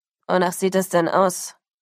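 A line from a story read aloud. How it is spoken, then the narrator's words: Giant growling. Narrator (German): knurrte ein tätowierter Riese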